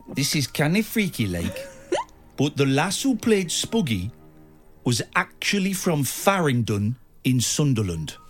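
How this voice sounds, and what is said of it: Put-on Newcastle Geordie accent. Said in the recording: “he's from Newcastle... He's got a funny voice... Do the voice.”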